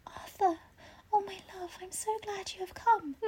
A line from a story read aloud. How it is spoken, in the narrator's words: she opened her eyes and, seeing him, whispered softly